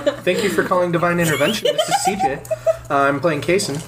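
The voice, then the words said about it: Polite customer service phone voice. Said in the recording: “customer service voice”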